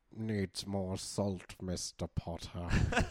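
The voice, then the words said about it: Imitates another person's voice. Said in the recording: “my Matt Preston impression”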